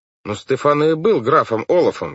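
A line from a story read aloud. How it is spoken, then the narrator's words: Exclaimed. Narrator (Russian): воскликнул Клаус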